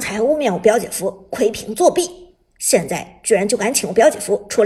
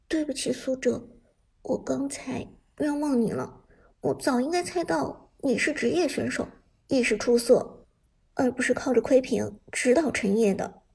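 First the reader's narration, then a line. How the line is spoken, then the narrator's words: Low voice. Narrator (Chinese): 艾美低声说道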